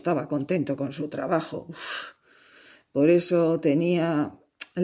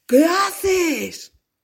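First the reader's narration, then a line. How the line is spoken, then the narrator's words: Delighted scarecrow shouting. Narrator (Spanish): Al espantapájaros aquello le encantó y gritó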